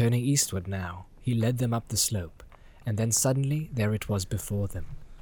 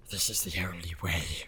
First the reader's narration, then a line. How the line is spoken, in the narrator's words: whispered Gollum